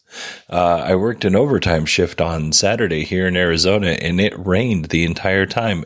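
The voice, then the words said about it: Hoarse voice from a cold. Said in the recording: “I have a cold, and I'm losing my voice.”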